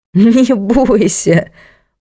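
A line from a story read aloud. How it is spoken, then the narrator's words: Laughing. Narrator (Russian): он засмеялся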